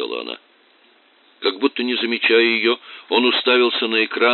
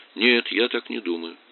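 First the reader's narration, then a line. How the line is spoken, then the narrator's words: Calm. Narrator (Russian): Тоби сказал спокойно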